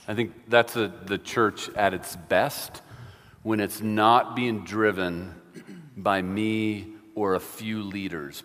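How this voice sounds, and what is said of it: New York accent. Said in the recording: “you probably recognize the accent, New York, right off the bat”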